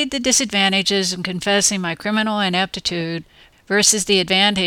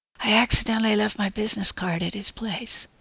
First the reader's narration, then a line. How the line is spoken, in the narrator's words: I admitted in a barely audible whisper